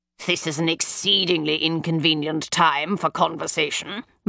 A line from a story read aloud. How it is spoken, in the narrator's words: Mycroft growled